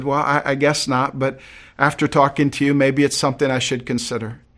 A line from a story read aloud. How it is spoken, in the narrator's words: chuckling a little bit nervously, the doctor said